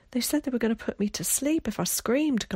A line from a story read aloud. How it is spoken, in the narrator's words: gasped out Will